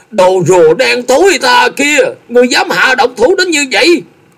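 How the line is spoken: Cracked-voice scream. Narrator (Vietnamese): lạc giọng hét lớn

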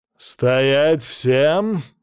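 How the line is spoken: Pompous roar. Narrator (Russian): важно проревел лысый с сержантскими полосками

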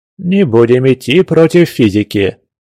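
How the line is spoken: Old man's good-natured laugh. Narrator (Russian): добродушно рассмеялся пожилой доктор

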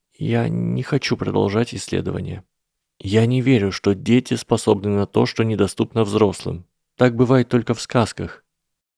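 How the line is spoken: Trembling voice. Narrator (Russian): дрожащим голосом продолжила Гермиона

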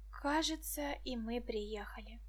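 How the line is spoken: Whisper. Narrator (Russian): шепнул Петька

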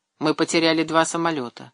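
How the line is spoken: Calm report. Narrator (Russian): спокойно сообщил штурман

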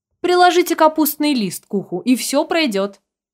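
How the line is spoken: Old woman shouting. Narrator (Russian): прокричала старушка

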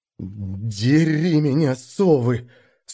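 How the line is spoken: Hoarse, teeth chattering. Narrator (Russian): стуча зубами от холода, просипел я

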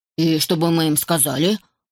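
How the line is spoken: Snorting. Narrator (Russian): фыркнул Тим

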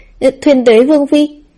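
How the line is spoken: Trembling, frightened. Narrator (Vietnamese): Sắc mặt thị vệ kia tái đi rồi lại đỏ ửng, run rẩy nói

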